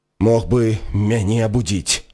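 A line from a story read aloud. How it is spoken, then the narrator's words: Angry grumble. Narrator (Belarusian): злосна буркнуў Рон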